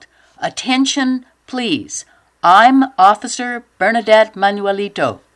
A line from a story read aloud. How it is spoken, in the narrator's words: She yelled